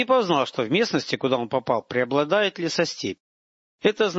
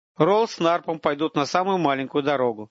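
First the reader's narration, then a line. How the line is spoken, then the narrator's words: Plain. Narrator (Russian): сказал он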